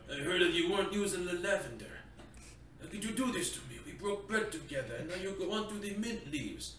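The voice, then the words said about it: Mock mafia gangster accent. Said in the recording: “I'm not exactly good with my mafia accent”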